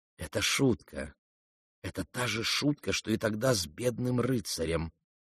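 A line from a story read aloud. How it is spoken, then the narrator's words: Firm whisper in ear. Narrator (Russian): твердо прошептала ей на ухо Александра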